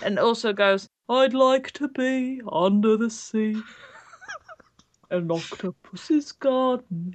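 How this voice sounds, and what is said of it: Sung imitation of another person's voice. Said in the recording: “Is that your Ringo Starr impression?”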